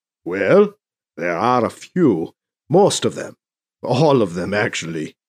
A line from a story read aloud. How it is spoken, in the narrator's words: he mumbles